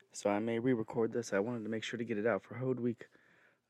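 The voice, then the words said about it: Hoarse, strained voice. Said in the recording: “I'm losing my voice between talking too much and allergies”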